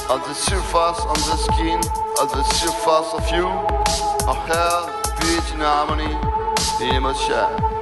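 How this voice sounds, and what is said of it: French accent. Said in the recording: “I'm sorry for my accent, because I'm French.”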